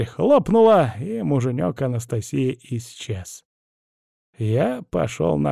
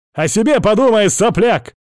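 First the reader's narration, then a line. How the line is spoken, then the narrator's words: Shouting. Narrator (Russian): крикнул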